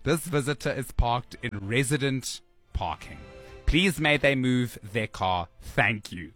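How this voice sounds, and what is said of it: Put-on accent reading a message. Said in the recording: “I'm just adding an accent, but I'm sure it's not very, I don't think it's very far off.”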